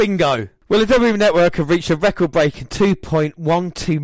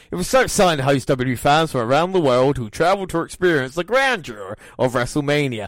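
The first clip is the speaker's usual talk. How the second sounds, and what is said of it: Put-on American accent. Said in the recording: “I don't know why I went to American accent”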